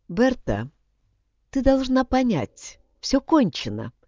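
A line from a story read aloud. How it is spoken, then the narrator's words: Calm speech. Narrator (Russian): спокойно проговорила она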